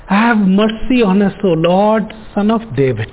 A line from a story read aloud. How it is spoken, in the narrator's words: two blind men, when they heard that Jesus was passing by, cried out saying